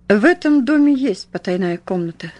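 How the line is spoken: Calm. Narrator (Russian): спокойно проговорил он

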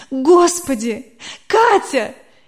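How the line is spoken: Barely holding back sobs. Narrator (Russian): Еле сдерживая рыдание

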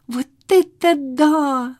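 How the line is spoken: Exclaimed. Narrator (Russian): воскликнул Толя

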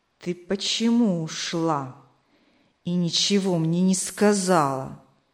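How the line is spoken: Restrained irritation through teeth. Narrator (Russian): Сквозь зубы, сдерживая раздражение, спросил он

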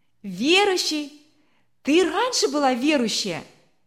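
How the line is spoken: Shout. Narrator (Russian): выкрикнул

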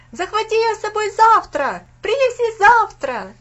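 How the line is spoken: Group shouting while running. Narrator (Russian): на ходу закричали Винзи

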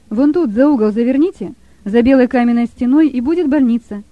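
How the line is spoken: Plain. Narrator (Russian): ответил тот ему

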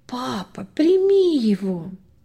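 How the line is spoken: Tender whisper. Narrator (Russian): ласково шепнула

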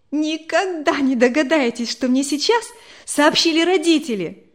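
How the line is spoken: Joyful announcement. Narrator (Russian): Радостно обратилась она к собравшимся

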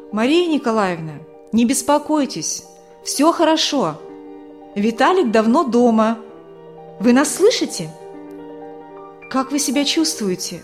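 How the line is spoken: Man speaking, plain. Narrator (Russian): знакомый мужчина сказал

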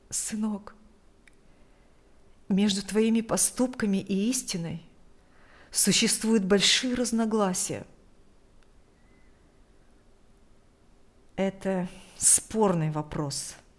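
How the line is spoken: Strained, ashamed. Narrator (Russian): выдавил из себя Игорь, не смея смотреть в глаза матери

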